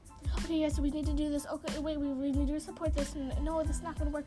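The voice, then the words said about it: Very rapid talking. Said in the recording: “I was talking so fast ... Why can't I stop talking so fast? ... I can be like the world's fastest talker”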